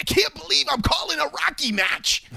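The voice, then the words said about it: Max Kellerman impression. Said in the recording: “That's a pretty good Max, I feel like, there. ... That's a decent impersonation.”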